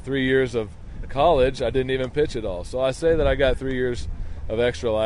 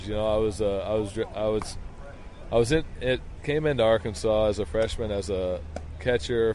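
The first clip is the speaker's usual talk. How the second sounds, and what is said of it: Stuttering, repeated words. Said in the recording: “I'm stuttering here”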